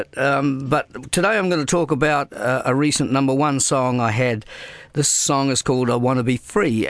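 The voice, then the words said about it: New Zealand accent. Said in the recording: “I'm a New Zealander. That's where my accent is coming from here.”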